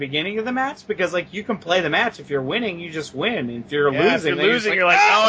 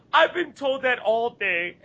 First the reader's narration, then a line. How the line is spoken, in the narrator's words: best fucking pouty expression I possibly can without laughing